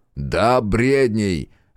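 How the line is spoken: Barked. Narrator (Russian): рявкнул Томас Бунте

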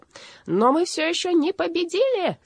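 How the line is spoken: Shriek. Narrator (Russian): завизжал он

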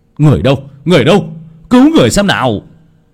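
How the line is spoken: Shout. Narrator (Vietnamese): Tiếng hét

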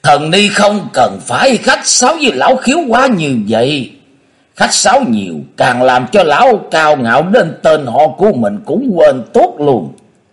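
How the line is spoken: Loud laughter. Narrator (Vietnamese): Cùng Lư Dương Tử cười lớn đỡ lời

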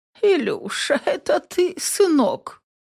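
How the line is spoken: Feeble, dying voice. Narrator (Russian): Умирающим голосом спрашивает Аглая Рудольфовна, моя бабушка по материнской линии

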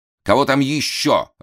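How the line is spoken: Irritated. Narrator (Russian): раздраженно сказал Ной Ноевич, не выносивший, когда во время репетиции или собрания заявлялись посторонние

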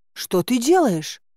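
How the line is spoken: Indignant exclamation. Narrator (Russian): возмущенно воскликнула

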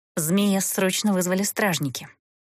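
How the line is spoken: Quick whisper. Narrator (Russian): быстро шепнула Эста

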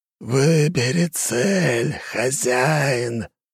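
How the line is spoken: Creature's growl. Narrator (Russian): прорычала тварь

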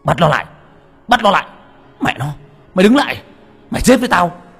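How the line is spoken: Shouting. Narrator (Vietnamese): tiếng gào thét

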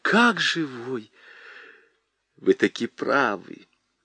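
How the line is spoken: Old man's whispered agreement. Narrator (Russian): Шепотом согласился с нею старик в длинном плаще

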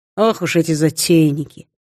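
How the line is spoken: Calm, matter-of-fact. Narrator (Russian): произнес спокойно и буднично, словно рассказал о природе и погоде

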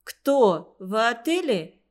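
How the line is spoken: Exclaimed. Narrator (Russian): воскликнула Нейда

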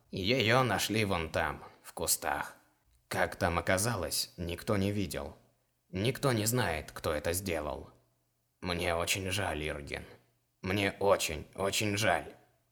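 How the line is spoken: Gloomy, after clearing throat. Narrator (Russian): Вышедший, откашлившись, мрачно сказал

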